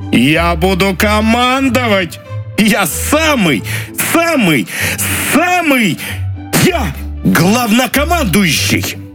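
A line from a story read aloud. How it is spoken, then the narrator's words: Prolonged shouting. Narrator (Russian): Так он кричал долго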